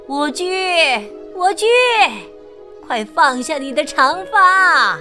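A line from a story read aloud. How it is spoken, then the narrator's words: Witch calling upward. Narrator (Chinese): 女巫抬头叫道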